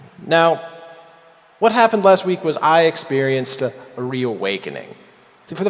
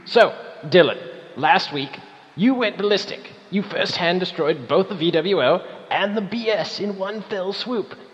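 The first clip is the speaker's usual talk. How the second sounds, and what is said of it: Deliberately bad put-on accent. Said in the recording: “a shitty accent ... me with a shitty accent”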